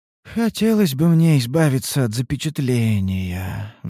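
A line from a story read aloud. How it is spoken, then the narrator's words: Sighing. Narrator (Russian): вздохнула Ульданте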